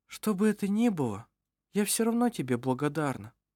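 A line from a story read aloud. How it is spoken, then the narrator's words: Quiet. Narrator (Russian): сказала она тихо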